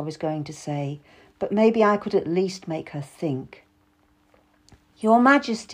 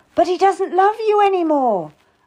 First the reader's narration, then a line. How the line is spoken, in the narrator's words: I cried out